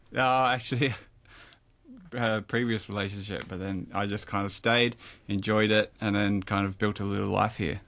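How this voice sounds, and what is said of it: Australian accent. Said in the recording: “it's pretty obvious you're from Australia because you can hear it in the accent.”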